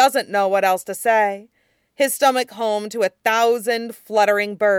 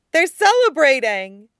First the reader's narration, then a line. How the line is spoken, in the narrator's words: she cries, back over her shoulder at Tong Fan, face alight